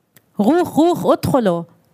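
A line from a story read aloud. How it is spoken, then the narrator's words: Demanding, foreign accent. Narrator (German): forderte ein Soldat auf Arabisch mit hebräischem Akzent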